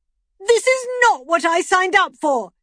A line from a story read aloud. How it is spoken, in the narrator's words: shouted